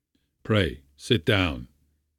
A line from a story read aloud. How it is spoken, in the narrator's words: Kovalenko said coldly, with a frown